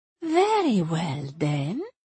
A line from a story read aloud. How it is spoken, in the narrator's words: purred Ersebet, so immediately cheerful